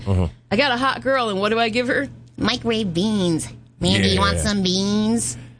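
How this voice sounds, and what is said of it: Nerdy put-on character voice. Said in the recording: “He'll, like, do a voice ... His little nerd voice.”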